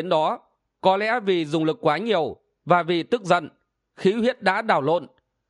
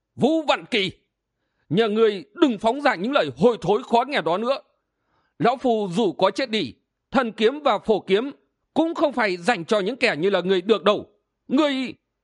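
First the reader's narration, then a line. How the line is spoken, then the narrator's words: Old man shouting. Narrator (Vietnamese): Ông lão gọi là Chu đại hiệp đó liền quát lên một tiếng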